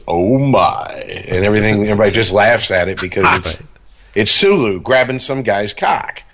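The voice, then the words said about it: George Takei impression. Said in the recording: “he just gives that big laugh of his and goes ... Pretty good impression you do there”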